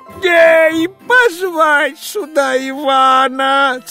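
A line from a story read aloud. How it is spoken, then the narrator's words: Hurried shout, king. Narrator (Russian): царь поспешно закричал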